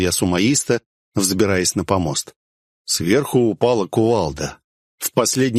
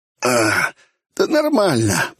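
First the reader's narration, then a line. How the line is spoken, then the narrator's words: Hoarse rasp. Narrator (Russian): прохрипел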